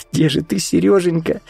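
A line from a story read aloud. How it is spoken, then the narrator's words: Sobbing. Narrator (Russian): всхлипнула Вика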